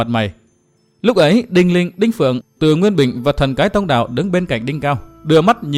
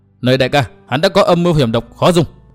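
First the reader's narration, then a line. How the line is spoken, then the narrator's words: Loud shout. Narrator (Vietnamese): Diệm Sơn quát to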